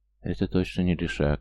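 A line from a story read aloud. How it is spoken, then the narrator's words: Whisper. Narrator (Russian): прошептал Стоян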